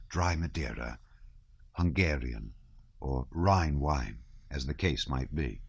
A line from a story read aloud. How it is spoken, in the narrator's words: the butler whispered